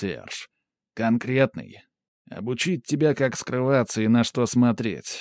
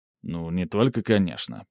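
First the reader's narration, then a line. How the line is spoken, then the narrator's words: Mumbling mage. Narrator (Russian): пробурчал маг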